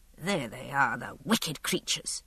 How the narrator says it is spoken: he muttered

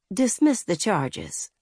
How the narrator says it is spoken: Mandy said quietly

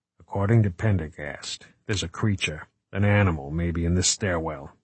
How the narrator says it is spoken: he whispered

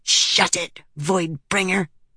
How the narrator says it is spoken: Lift hissed

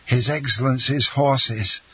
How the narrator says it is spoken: Bertuccio cried out in a hoarse voice

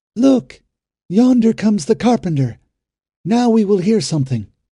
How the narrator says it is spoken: At sight of him, a woman cried out

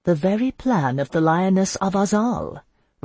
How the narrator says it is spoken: Roxanne de Morelio murmured

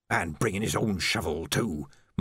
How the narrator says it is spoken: muttered Ledgy

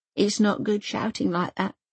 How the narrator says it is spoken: she mumbles

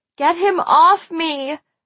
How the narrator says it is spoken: I shouted to anyone who would listen

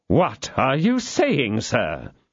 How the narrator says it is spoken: exclaimed the astonished cardinal

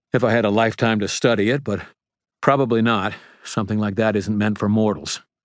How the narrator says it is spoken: I panted

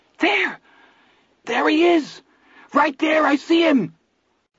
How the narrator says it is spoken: Vern began to screech triumphantly

